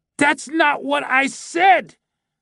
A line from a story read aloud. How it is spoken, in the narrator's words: bellowed the old man